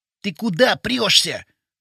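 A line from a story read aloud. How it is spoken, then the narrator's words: Hissed. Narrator (Russian): прошипел Вовчик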